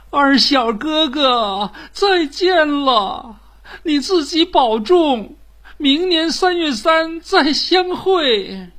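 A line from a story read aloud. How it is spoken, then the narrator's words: Crying out. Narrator (Chinese): 九龙女也哭喊着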